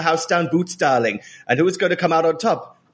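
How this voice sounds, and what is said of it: Put-on Welsh accent. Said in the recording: “Oh, Welsh... going from East London to Wales... Catherine Zeta-Jones Welsh, which is basically an American accent”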